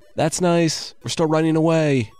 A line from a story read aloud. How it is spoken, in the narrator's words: the men yelled back as they disappeared into the forest